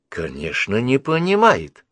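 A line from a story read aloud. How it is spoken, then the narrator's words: Exclaimed. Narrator (Russian): воскликнула Мидж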